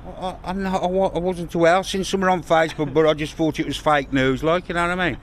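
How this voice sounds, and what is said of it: Thick Brummie accent. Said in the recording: “his thick, brummy accent.”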